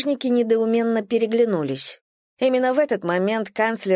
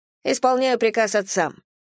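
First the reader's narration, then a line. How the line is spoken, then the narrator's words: Cold reply. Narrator (Russian): холодно ответила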